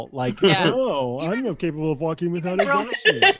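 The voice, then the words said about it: Imitates another person's voice. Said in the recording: “That is a very good impression.”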